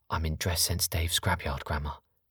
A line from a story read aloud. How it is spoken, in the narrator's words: Robbie whispered back